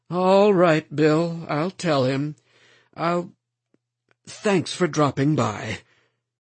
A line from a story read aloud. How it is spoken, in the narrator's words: said wearily